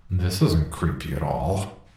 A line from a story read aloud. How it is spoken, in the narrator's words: Paul commented sarcastically